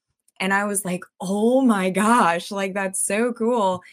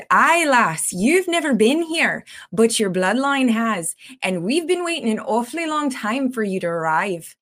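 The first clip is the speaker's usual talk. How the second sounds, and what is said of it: Put-on Scottish accent. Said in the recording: “in the most perfect Scottish accent”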